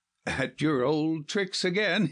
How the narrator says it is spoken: he laughed

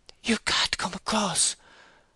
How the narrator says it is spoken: Bathsheba said in a whisper, which she vainly endeavoured to make loud enough to reach Liddy's ears

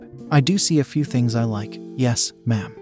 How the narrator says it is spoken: muttered, my voice deep

